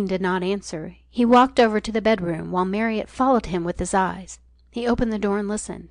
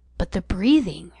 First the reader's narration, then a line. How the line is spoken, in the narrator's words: urged in a low voice